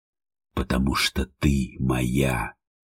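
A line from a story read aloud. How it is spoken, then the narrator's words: Feverish whisper. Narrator (Russian): Горячечный шепот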